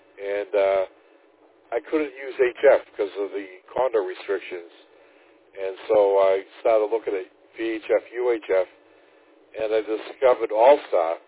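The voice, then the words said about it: East Coast American accent. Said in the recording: “it seems like kind of an East Coast accent coming from you”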